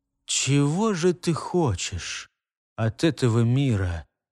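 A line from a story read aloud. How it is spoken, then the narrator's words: Sudden, very serious question. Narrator (Russian): спросил он вдруг самого себя удивительно серьезным тоном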